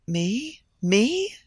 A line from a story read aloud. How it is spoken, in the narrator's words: she gasped